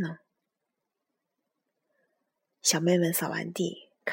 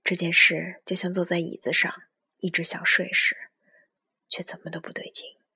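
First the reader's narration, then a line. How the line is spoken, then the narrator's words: Muttering to oneself. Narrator (Chinese): 我喃喃的对自己说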